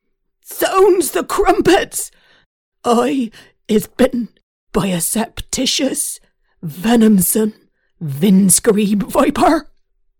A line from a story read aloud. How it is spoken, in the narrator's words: sat there howling his head off